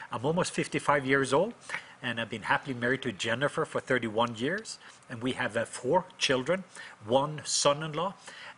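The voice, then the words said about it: Norwegian accent. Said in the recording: “as people hear me talk, I am from the country of Norway, so I do have an accent.”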